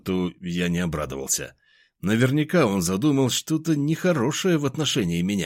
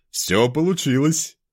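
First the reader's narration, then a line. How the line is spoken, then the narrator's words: Pleased voice. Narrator (Russian): довольным голосом сказал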